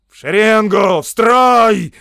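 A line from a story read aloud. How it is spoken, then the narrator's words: Shouting. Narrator (Russian): закричал сержант Колкхаун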